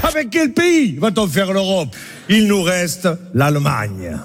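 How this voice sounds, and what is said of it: Mocking German accent. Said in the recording (French): “se moquer de l'accent de nos voisins”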